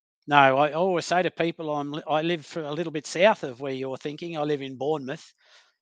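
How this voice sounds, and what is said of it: Australian accent. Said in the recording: “the accent ... from Australia, from sunny Queensland”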